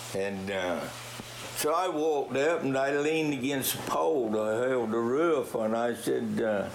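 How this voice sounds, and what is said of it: Southern drawl with old English blend. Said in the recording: “this wonderful English dialect, sort of a blend between North Carolina drawl and Old England ... the accent will get you a little bit. Unless you're from the South”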